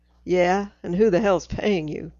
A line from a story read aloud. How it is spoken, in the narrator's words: Dean snorts